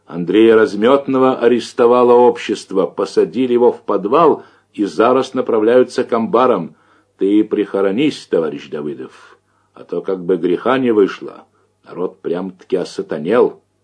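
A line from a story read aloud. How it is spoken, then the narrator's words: Shouted. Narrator (Russian): Еще издали крикнул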